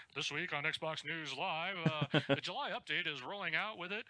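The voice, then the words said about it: Mock news-anchor voice. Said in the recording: “my news voice ... That's annoying.”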